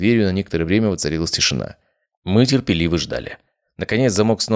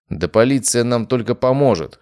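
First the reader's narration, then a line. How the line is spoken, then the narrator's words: Snorting. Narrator (Russian): хмыкнул я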